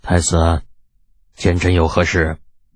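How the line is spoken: Weary, deep voice. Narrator (Chinese): 李二这脸上满是疲惫 沉声问道

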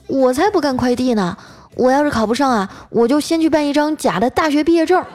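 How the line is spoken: Indignant loud protest. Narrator (Chinese): 我小妹一听啊就不干了，嚷嚷着说

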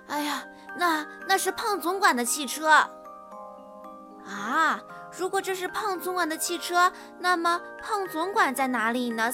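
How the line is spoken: Disdainful. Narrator (Chinese): 斯卡夫，萨姆逊还是不屑地说

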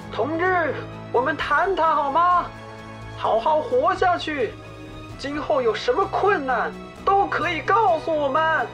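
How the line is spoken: Shouting through loudspeaker. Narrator (Chinese): 沈聪继续用高音喇叭喊着

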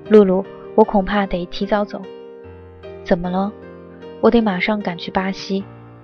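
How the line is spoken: Soft, gentle voice. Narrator (Chinese): 轻声地说

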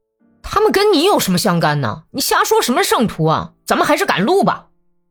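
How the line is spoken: Angry shouting. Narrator (Chinese): 斯特列米亚尼科夫不知道为什么发起脾气来，喊道

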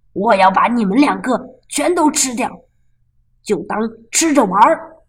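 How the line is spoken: Monster's roar. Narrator (Chinese): 怪兽咆哮道

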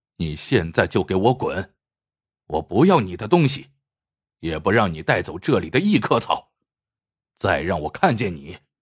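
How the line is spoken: Cold. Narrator (Chinese): 托尔木冷冷的说

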